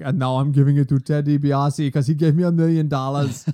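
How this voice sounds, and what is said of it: Poor French accent, Arnold-like voice. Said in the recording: “accent ... Much more of an Arnold voice ... You can't do a French accent. ... No, I can't.”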